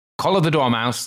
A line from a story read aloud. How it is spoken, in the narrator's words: the Queen shrieked out